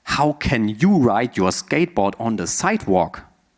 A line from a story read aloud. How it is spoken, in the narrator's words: they asked